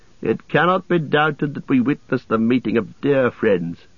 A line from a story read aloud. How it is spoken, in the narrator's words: said Théoden